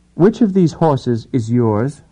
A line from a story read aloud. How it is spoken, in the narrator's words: He asked blandly